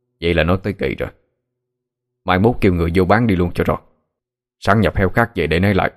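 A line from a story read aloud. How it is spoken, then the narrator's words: Cold old man. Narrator (Vietnamese): Ông Thức lạnh lùng nói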